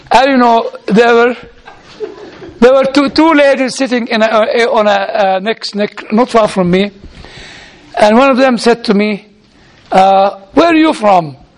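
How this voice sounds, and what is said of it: Non-American foreign accent. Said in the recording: “No, you are not American... because of my accent”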